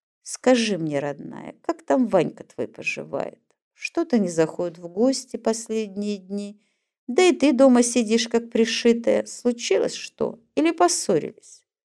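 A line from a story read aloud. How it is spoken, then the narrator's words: Unexpectedly soft. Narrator (Russian): Неожиданно мягко начал разговор Борис Павлович с Надей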